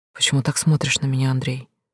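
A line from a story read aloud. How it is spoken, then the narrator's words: Barely audible. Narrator (Russian): Говорит еле слышно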